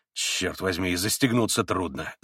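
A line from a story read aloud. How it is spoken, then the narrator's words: Grumbling. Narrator (Russian): заворчал снова Митя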